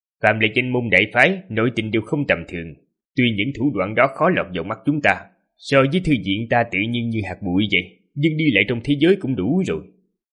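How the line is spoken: Serious. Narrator (Vietnamese): Vị sư huynh vẻ mặt nghiêm nghị nói

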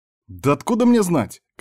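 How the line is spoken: Angry shouting. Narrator (Russian): кричал он зло

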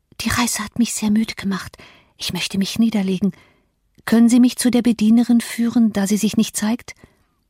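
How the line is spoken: Whispering. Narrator (German): flüsterte

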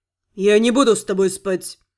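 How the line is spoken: Firm declaration. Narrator (Russian): Заявил Сид

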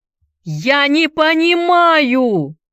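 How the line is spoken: Shouted to the sky. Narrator (Russian): выкрикнул Энди в небо

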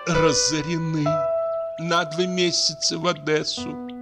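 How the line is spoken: Moaning. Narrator (Russian): простонала Лидия Егоровна

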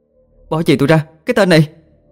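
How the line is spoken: Shout. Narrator (Vietnamese): Vừa hét, Diệu

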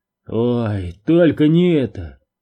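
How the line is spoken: Exclamation. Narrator (Russian): воскликнул Доуси

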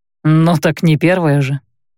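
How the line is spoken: Snort. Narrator (Russian): хмыкнул Рэй

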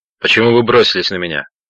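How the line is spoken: Sharp question. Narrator (Russian): резко спросил Роджер

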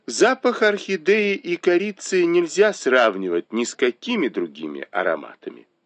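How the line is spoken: Calm. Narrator (Russian): спокойно сказала

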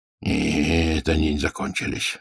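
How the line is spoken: Grumbling father. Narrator (Russian): ворчал отец

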